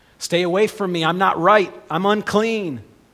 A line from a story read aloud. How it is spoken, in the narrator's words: if she ever was around a crowd, she had to yell out